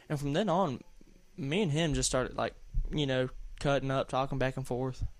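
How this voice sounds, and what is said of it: Southern American accent. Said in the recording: “there's my southern accent sticking through”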